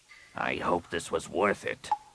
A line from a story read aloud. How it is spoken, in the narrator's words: Rapung growled